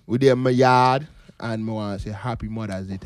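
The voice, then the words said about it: Put-on Jamaican accent. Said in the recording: “full Jamaican today... That was clearly your attempt... At a Jamaican accent... But you try to sound Jamaican.”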